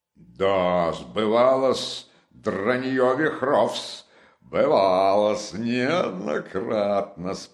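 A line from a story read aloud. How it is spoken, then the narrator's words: Roared. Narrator (Russian): проревел опять Провянский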